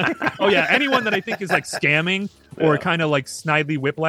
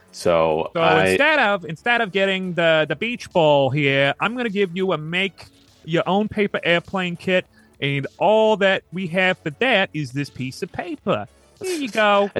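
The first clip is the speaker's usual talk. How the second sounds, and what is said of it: Put-on New Jersey accent. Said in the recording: “I got to do the Jersey accent”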